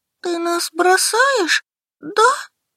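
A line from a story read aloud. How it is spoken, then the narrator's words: Sobbing. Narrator (Russian): всхлипнул Денис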